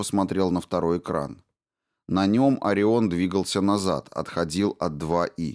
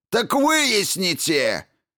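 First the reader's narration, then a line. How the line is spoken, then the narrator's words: Barked. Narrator (Russian): рявкнул замдиректора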